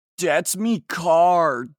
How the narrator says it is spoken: shouted Draco angrily

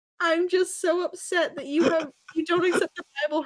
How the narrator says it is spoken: Hermione sobbed femininely

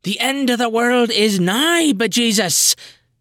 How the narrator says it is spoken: The good sister O'Henehy bellows at the heavens

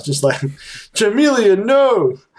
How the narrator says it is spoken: Poldry yells

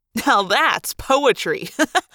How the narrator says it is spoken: Marco said, laughing

